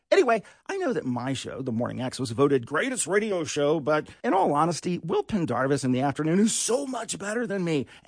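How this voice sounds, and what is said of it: Congested, stuffy-nosed voice. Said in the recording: “I probably don't sound like myself today because I have a cold and I broke my nose.”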